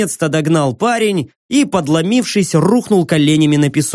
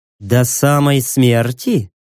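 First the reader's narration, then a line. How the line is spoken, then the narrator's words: Purring. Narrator (Russian): промурлыкала Кассандра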